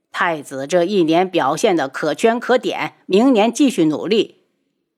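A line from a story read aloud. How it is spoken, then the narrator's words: Smiling, cheerful. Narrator (Chinese): 他笑着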